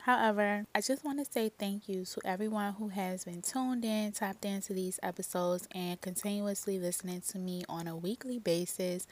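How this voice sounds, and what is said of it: Congested, shifting voice. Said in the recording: “my allergies is doing a number on me, so if my voice keeps changing, that's why”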